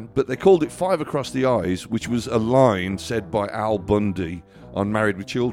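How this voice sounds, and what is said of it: Usual voice. Nothing is said of it.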